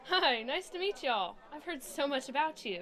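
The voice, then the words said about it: American accent. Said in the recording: “Why'd you sound so American?”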